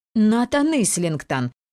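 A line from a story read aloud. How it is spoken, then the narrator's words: Two voices exclaiming together. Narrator (Russian): одновременно воскликнули Шейла и Ева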